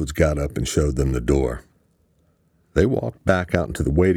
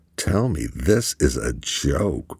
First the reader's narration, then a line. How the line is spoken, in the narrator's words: Luke muttered